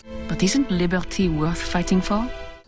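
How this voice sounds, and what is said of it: French accent. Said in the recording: “all have a French accent.”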